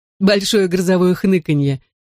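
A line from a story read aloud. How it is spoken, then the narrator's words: Giggling. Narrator (Russian): хихикнул Дэви Рэй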